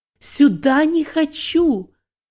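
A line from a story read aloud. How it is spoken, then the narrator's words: Scream. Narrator (Russian): Она закричала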